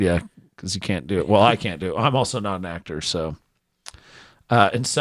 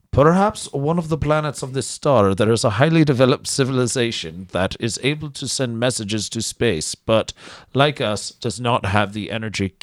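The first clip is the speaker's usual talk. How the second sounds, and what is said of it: Put-on Russian accent while reading. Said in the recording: “you'd be so sexy with that accent right now ... I try to do the Russian accent ... don't do a Russian accent”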